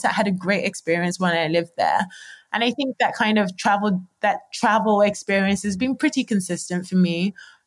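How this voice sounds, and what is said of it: English London accent, somewhat international. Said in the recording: “the English accent, even though my accent is a lot more international now ... you're from London”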